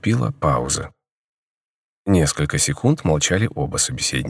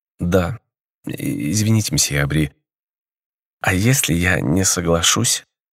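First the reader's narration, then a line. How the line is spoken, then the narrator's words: Timid girl asking. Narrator (Russian): робко спросила девушка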